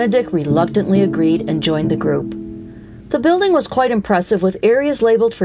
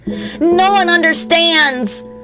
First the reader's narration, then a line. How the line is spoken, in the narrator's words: Benedict shouted